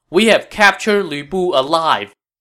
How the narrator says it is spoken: At the top of the wall, Wei Ho shouted

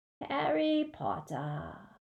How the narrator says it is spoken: he said very softly

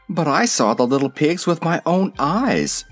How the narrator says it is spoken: exclaimed Zeb

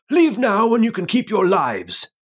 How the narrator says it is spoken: Pine shouts

